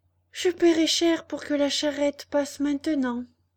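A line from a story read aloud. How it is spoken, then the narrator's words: Sighed. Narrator (French): soupira Pinocchio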